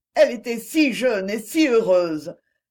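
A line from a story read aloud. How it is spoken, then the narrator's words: Sudden sobbing cry. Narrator (French): m'écriai-je tout à coup dans un sanglot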